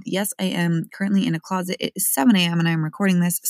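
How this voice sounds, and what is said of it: Sleepy voice. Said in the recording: “my voice is a little bit sleepy”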